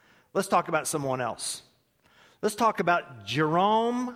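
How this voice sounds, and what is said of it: Usual voice. Nothing is said of it.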